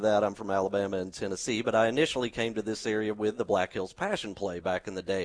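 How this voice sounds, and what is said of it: Slight Southern American twang. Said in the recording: “I have a little bit of a southern twang, so people will be able to tell pretty quick that I'm not from these parts”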